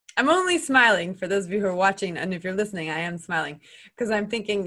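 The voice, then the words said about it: American accent. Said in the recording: “I'm American. You can tell from my accent.”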